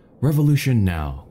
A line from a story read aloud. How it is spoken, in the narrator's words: cried the professor